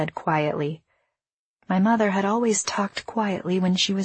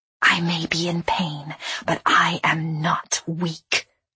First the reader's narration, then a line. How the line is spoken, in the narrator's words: I whispered